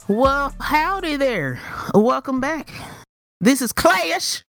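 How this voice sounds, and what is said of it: Put-on drawling accent. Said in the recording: “I was not expecting that accent.”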